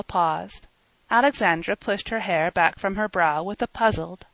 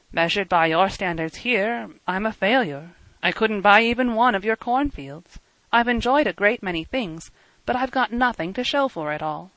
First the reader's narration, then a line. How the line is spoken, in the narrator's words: went on calmly